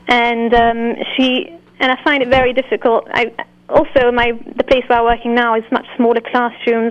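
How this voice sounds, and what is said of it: British accent. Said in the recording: “based on the British accent”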